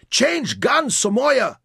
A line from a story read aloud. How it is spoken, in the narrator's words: shouted